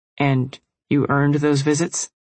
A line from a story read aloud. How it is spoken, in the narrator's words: AK said tightly